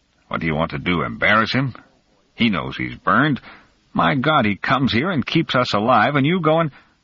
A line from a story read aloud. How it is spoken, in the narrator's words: In an angry, low voice, he said into Nicholas' ear